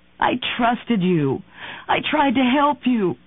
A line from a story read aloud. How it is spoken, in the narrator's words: sobbed